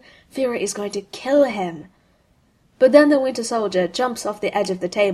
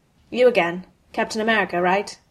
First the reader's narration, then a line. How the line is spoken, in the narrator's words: His voice is flat